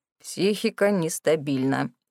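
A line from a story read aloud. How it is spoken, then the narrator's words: Doctor muttering. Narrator (Russian): пробормотал доктор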